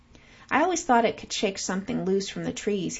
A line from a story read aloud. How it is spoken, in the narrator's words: says